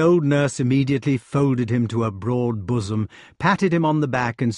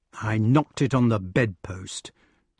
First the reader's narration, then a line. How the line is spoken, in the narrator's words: said the wart sullenly